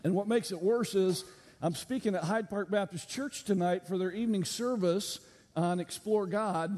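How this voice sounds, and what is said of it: Slightly hoarse, strained voice. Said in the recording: “You can also tell that I'm kind of losing my voice a little bit.”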